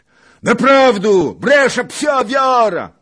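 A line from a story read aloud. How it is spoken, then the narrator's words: Yelling. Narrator (Polish): wrzasnął Czarnota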